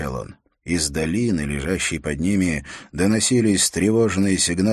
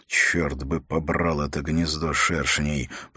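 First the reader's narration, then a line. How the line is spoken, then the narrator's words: Muttered under breath. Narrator (Russian): пробурчал Холт себе под нос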